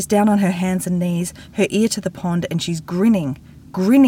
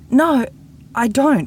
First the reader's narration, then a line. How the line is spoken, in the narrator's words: says, her voice quaking